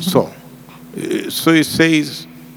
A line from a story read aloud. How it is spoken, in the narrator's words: he pleaded